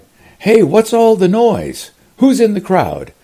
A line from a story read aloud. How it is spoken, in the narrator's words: blind men called out